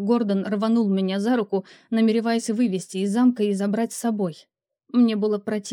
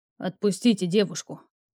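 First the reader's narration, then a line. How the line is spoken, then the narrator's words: Dragon's growling voice. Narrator (Russian): В голосе дракона послышалось рычание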